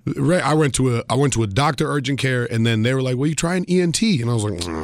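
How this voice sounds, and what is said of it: Raspy, strained voice. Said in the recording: “people like the raspiness in my voice ... It hurts to talk ... my voice has been hurting talking to you ... my voice is hurting right now”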